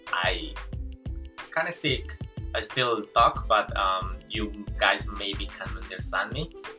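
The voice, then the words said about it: Colombian Spanish-accented English. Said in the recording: “I'm Colombian. Well, actually I was born in Venezuela, but I grew up in Colombia. And my English, I know, is not really good... I have this broken English”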